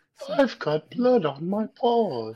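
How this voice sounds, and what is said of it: Winnie the Pooh cartoon voice. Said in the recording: “he had the Winnie the Pooh voice”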